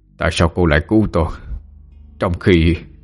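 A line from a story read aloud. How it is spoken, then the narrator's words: Panting, shaken. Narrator (Vietnamese): Lão Tam sắc mặt biến đổi, thở hổn hển nói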